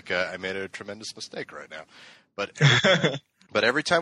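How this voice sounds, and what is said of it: Usual voice. Nothing is said of it.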